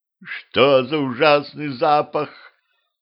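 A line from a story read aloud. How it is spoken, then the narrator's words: Queen's moan. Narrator (Russian): простонала королева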